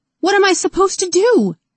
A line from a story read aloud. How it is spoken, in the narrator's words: Rose shrieked